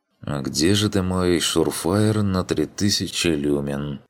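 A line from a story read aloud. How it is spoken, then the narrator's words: Muttered under breath. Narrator (Russian): Пробормотал себе под нос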